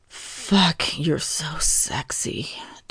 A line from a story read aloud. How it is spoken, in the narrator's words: Thomas murmured